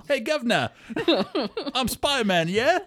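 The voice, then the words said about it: Put-on British accent. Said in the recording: “But he is British. He has an accent.”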